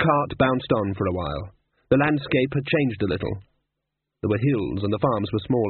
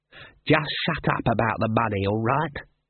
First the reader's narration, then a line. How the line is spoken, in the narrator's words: hissed Ashfeld